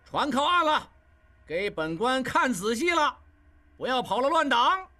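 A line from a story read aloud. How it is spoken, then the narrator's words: Shouting. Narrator (Chinese): 金勇在前面大喊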